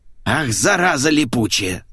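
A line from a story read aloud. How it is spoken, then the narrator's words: Hissed. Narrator (Russian): зашипела Лика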